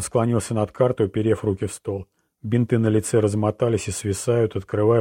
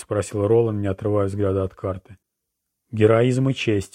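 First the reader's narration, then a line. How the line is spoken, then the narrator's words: Gloomy reply. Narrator (Russian): мрачно ответила Жизель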